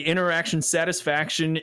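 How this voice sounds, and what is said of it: Hums imitation of podcast intro music. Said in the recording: “your best impersonation ... Hum a couple bars ... It sounded almost like Gorillaz Clint Eastwood there at the first”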